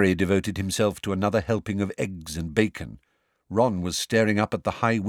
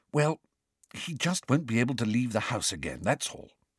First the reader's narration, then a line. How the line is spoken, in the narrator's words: she whispered